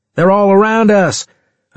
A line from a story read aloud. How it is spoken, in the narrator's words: I shouted